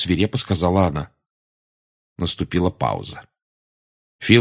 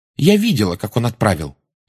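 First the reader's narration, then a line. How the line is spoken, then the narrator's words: Angry interruption. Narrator (Russian): сердито вмешалась Джоу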